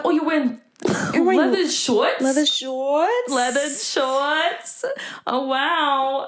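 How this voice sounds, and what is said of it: Put-on New York accent. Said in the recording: “They would like put on this like New York accent.”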